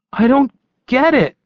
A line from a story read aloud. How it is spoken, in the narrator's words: he exclaimed